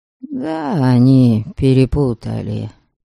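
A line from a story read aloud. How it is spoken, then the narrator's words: Tired. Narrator (Russian): устало отвечал Даряша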